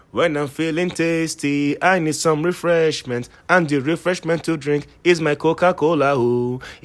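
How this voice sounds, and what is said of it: Jamaican accent like Sebastian the crab. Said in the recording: “you know the crab in The Little Mermaid, the crab? ... I want to use that, you know, Jamaican accent kind of stuff”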